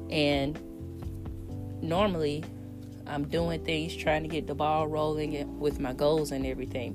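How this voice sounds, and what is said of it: Tired voice with sore throat. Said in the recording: “I'm tired ... allergies, sore throat, head fever ... You can probably hear it in my voice”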